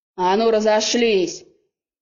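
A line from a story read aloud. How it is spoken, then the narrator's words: Loud bark. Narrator (Russian): гаркнули в комнате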